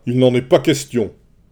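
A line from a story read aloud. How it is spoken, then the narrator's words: Shouted. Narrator (French): cria Agamemnon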